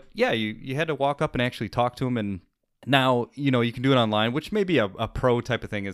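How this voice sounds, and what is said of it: Usual voice. Nothing is said of it.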